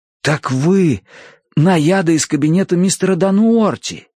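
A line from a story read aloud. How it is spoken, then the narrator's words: Amazed stammer. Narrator (Russian): изумленно пролепетал я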